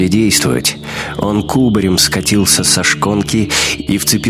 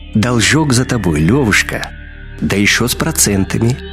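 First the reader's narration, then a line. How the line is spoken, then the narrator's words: Gentle whistling voice. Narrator (Russian): ласково повторил свист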